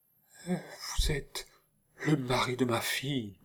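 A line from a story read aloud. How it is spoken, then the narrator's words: Stammered. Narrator (French): balbutia la duchesse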